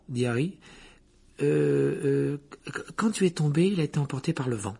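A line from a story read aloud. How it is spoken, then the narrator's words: Hesitant tone. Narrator (French): répondit Hermione d'un ton hésitant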